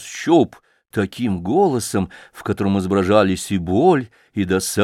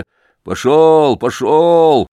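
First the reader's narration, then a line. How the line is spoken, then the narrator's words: Shouting man. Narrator (Russian): кричал кузнец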